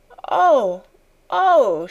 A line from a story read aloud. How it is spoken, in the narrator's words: she cried woefully